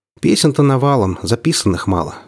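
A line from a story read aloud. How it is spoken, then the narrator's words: Sighed. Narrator (Russian): вздохнул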